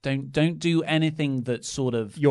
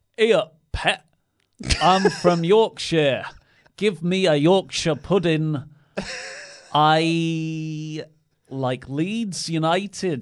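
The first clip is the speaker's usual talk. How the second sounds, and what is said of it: Put-on Yorkshire accent. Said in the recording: “Yorkshire ... Yorkshire ... the master of accents”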